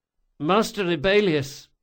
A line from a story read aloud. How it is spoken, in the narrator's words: said Locke in a weak voice, made nasal by his broken nose